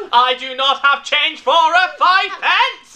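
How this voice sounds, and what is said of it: Angry Dalek-style robot voice. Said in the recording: “Why is it a Dalek? ... My go-to angry robot voice is a Dalek, apparently.”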